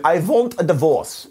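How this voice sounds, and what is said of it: Bad put-on French accent. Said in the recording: “That was my attempt at a French accent, and it was absolutely terrible.”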